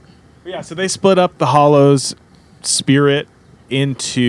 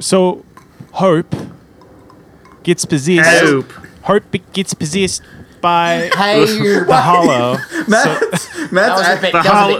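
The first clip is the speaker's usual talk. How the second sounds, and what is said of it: Imitates another person's voice. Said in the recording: “a pitch perfect impression of Murray from Flight of the Conchords ... saying Hollow in that accent turns it into holler”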